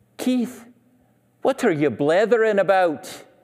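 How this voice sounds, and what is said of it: Imitated Scottish accent. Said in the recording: “both of my parents are Scottish. They were born in Scotland ... they would often say to me in their accent”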